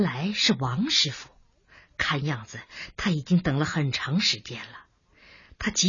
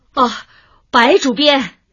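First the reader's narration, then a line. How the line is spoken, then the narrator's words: Calling out. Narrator (Chinese): 谁在喊他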